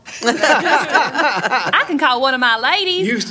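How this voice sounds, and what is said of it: Slips into a Texas accent. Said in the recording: “That was an interesting accent... You slid into a Texas accent”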